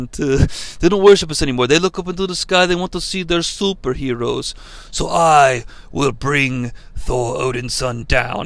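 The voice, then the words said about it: Put-on Italian accent. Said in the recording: “This is me doing the Italian accent.”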